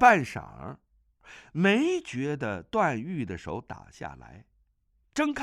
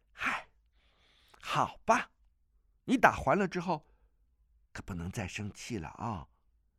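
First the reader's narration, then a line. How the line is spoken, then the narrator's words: Sighing, low voice. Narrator (Chinese): 钟灵叹了口气，低声道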